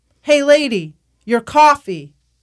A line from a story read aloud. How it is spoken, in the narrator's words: We wave and shout in anthem